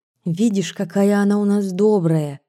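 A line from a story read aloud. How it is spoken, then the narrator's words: Whispered. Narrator (Russian): шепнула мне Маня Иванова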